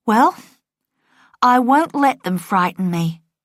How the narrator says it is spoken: she said

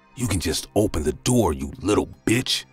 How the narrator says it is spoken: said in a rusty, threatening voice

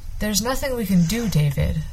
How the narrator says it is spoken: the father said gently

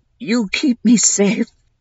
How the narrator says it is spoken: he said, his eyes huge and glazed and pleading

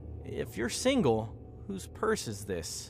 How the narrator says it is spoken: Brian laughed nervously

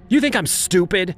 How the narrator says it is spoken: shouted

